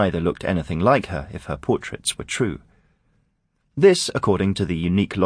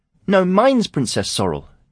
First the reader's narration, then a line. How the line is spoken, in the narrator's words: Juno said crossly